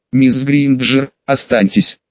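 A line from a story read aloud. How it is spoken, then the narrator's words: Plain. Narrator (Russian): сказала она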